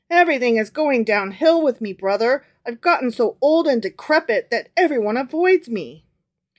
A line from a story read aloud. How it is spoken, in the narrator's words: Truth shook his head sadly and replied